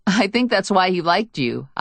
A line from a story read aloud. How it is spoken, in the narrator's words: said, a bubble of laughter slipping out